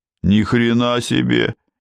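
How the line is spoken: Displeased grumble. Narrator (Russian): недовольно проворчал Гуняев

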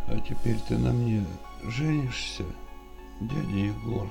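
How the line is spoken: Weak voice. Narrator (Russian): Слабым голосом произнесла Даша

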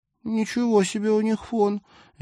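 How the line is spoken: Delighted squeak. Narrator (Russian): Полина пискнула уже от восторга

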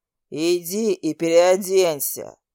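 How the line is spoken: Restrained angry growl. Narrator (Russian): Рыкнул он, едва сдержавшись

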